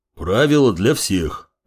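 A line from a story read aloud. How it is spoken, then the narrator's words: Deep bass voice. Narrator (Russian): пробасил дежурный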